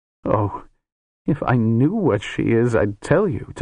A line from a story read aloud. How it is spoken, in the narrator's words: Tanar said, her voice full of grief and love and bitterness